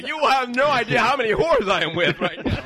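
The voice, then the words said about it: Smiley, happy imitation of another person. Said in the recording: “doing an impression of ... Doug telling his girlfriend ... Because Doug is so smiley and happy.”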